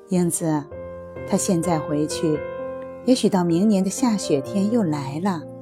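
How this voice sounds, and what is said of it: Soft, gentle, hushed voice. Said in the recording (Chinese): “轻轻地对我说”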